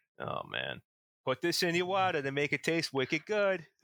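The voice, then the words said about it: Put-on Boston accent, dropped R's. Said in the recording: “up in Boston too ... the R's in places they don't belong. Dropped R's ... we just evolve into accents almost immediately”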